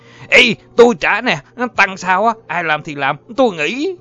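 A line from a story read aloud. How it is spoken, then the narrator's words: Grumpy angry shouting. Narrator (Vietnamese): Ông ta quát cáo, đổ quạo hét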